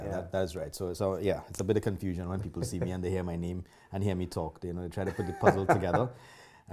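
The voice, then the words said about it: Trinidadian accent. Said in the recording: “I am from Trinidad. And a lot of people recognize my accent right away. Some people even think I'm from India.”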